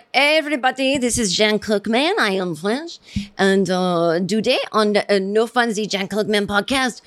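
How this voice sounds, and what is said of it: Deliberately bad put-on French accent. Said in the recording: “that's me, you know, doing a terrible accent”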